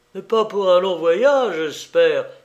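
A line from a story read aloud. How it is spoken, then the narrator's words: Many voices exclaiming. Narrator (French): s'écria chaque membre de la famille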